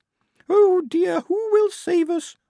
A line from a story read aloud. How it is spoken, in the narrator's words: Blouse quavered